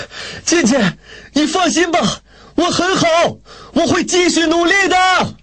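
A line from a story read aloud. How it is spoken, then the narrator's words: Breathless tearful shout. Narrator (Chinese): 雷锋喘着粗气，泪水盈盈地对着逝去的火车大喊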